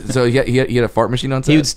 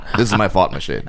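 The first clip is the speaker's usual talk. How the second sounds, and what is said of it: Leslie Nielsen impression, bit Sean Connery. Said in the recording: “That was my Leslie Nielsen impression. ... Sounds a little Sean Connery.”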